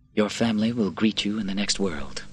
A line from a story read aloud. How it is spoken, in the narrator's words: Quintus said quietly